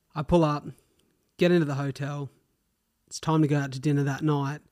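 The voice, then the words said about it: Australian accent. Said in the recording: “is that an Aussie accent? And I said, yeah.”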